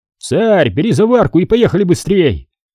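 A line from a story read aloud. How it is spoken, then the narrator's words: Shouted. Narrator (Russian): крикнул Семен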